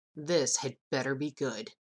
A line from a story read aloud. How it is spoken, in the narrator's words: muttered